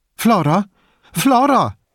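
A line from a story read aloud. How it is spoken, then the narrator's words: Woman calling from entrance. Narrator (German): rief eine Frau vom Eingang her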